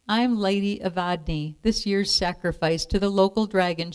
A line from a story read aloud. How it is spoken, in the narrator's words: she said